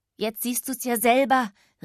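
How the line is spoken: Calling out. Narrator (German): rief er

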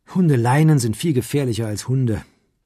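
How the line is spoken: Young woman sighing. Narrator (German): seufzte die junge Frau

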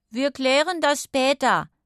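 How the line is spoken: Calling out. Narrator (German): rief er der verdutzten Nachbarin zu

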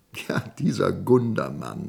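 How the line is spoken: Laughing. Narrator (German): lachte Woldemar

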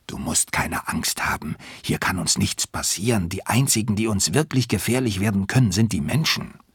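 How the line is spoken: Whispered reply. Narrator (German): flüstert zurück

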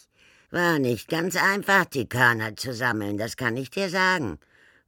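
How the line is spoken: Proud croaking. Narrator (German): verriet Nevel stolz krächzend

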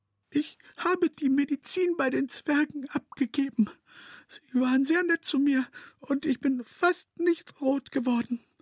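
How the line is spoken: Breathed softly. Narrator (German): haucht noch

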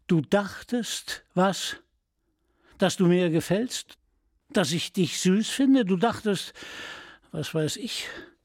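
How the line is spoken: Disappointed, not angry. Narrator (German): Er schien nicht wütend zu sein, nur enttäuscht

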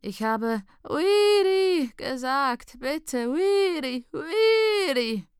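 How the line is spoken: Father groaning. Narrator (German): stöhnt dein Vater

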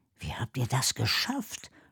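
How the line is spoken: Quiet question. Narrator (German): fragt Noah leise

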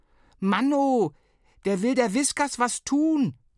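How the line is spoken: Bellowed. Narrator (German): brüllte Flo

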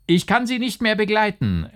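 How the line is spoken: Called out laughing. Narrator (German): rief der Maler lachend unter dem Andrang der Mädchen

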